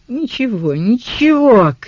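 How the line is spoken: Shouting while laughing. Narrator (Russian): крикнул сторож, смеясь

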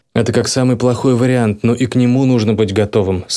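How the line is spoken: Plain. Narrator (Russian): сказал я ей

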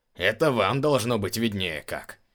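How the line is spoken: Wry snort. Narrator (Russian): хмыкнул начальник стражи

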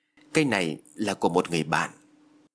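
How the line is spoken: Terrified stammering man. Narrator (Vietnamese): Phước điếng hồn, anh đưa tay chặn lại và lắp bắp nói

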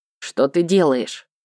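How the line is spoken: Indignant question. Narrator (Russian): Таня возмущенно спросила

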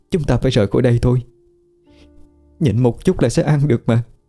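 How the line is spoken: Choked with tears. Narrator (Vietnamese): Tiên ... nghẹn ngào nói

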